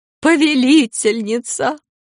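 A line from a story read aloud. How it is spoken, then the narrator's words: Sobbing woman's cry. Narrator (Russian): женщина, рыдавшая над Корделиусом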